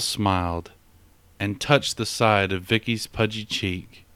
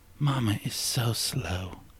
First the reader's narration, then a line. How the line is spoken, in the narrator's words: the child whispered playfully